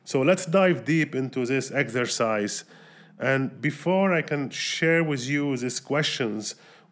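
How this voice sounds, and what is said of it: Voice affected by a cold. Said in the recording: “my voice is not as usual because I'm recovering from a strong cold”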